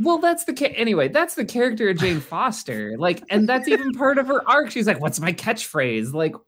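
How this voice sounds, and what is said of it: Usual voice. Nothing is said of it.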